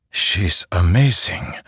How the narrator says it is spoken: Zeth whispered

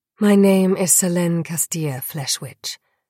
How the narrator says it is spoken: I replied

